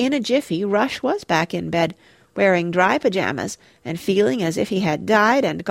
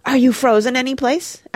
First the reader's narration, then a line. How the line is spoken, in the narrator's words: asked Mona eagerly